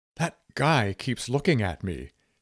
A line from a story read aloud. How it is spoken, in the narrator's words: she whispered to Midge Meyer